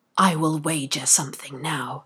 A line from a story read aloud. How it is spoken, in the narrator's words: whispered Stubb to Flask